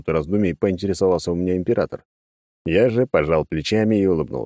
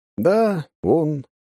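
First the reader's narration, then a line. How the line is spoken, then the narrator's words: Sigh. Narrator (Russian): вздохнул я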